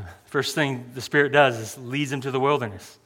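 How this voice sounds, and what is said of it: Usual voice. Nothing is said of it.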